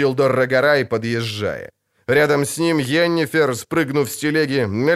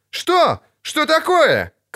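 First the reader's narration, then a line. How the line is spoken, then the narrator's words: Shouted. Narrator (Russian): крикнул Лютик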